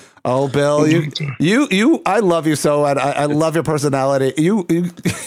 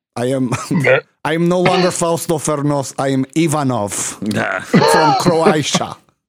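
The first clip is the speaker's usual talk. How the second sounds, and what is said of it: Put-on Eastern European accent. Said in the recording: “I'll even speak with Eastern European accent.”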